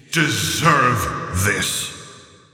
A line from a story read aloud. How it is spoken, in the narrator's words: she hissed